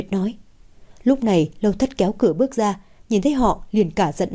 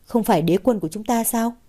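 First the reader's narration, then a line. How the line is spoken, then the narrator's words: Laughing. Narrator (Vietnamese): Nguyệt bật cười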